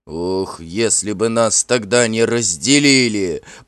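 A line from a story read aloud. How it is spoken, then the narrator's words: Growled. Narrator (Russian): прорычал Карил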